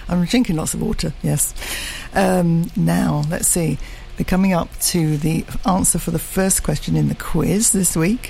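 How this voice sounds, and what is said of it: Husky voice. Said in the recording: “my voice is sounding a bit husky. It's the heat.”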